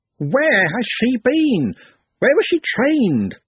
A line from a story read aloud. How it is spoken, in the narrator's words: squeaked